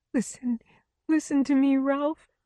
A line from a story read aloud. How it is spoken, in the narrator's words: she whimpered